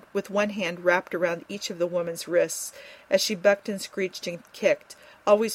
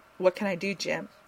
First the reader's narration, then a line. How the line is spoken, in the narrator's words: he asked softly